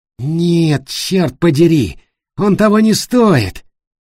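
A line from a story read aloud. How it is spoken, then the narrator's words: Through gritted teeth. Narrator (Russian): процедил Тима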